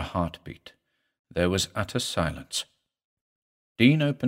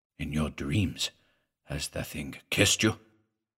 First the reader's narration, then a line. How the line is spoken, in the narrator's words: In a low voice, he asked